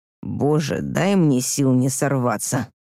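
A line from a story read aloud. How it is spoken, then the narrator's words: Groaning. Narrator (Russian): простонал Андрей, намекая, что я затягиваю процесс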